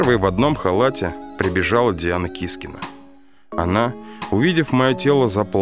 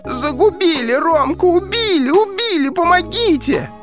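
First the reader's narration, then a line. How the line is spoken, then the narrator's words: Fake scream. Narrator (Russian): наигранно закричала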